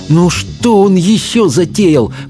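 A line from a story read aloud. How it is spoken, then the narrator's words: Through clenched teeth. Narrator (Russian): процедила Софи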